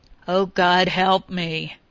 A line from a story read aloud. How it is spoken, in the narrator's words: groaned